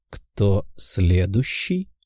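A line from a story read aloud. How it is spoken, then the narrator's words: Calm question. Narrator (Russian): спокойным голосом спросил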